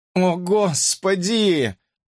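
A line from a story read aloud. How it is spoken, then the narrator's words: Groaning. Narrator (Russian): простонал Коннор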